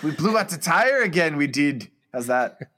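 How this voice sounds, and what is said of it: Attempted Scottish accent. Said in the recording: “give us a Scottish accent. Do a good Scottish accent... If you're Scottish and you're listening, please write in and tell us how great that was.”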